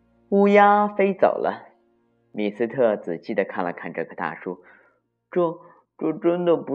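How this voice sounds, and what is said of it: Usual voice. Nothing is said of it.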